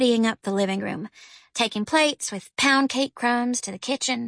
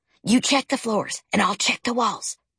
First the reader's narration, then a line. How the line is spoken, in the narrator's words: he whispered